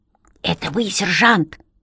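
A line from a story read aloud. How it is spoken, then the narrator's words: Whispered question. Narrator (Russian): шепотом осведомился Бэфилд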